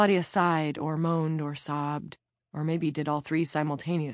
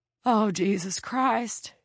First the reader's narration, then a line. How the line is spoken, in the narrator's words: she said in her choked wheeze